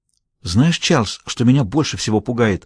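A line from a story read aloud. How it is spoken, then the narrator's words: Near whisper. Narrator (Russian): Голос ее понизился почти до шепота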